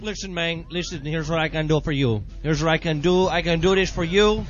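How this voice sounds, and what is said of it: Weak put-on Mexican accent. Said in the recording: “I can't do a good Mexican accent.”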